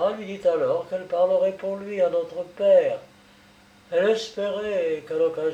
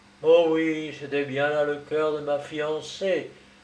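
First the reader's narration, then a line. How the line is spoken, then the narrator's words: Marquis sighing. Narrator (French): soupira le marquis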